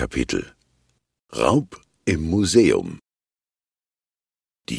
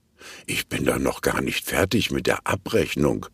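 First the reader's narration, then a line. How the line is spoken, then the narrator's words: Mumble. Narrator (German): murmelt Mona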